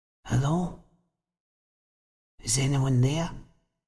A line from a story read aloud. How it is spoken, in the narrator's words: said rather hoarsely